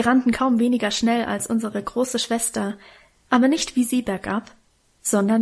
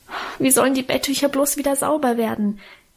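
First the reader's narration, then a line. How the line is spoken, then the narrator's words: Wailing. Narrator (German): jammerte ich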